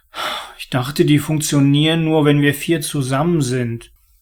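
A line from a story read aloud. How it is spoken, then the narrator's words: Mumbling. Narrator (German): nuschelte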